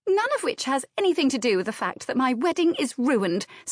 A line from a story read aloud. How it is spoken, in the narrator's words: snapped Anne